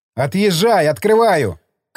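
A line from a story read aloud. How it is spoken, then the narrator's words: Shouting. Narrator (Russian): крикнул я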